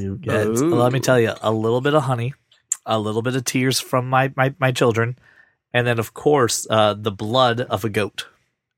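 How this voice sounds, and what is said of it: Worn, deteriorating voice. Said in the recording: “My voice is getting worse.”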